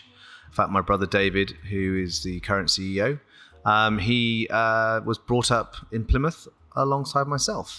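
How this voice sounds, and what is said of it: British accent. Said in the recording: “You might guess by my accent, I'm not an American. I am firmly British.”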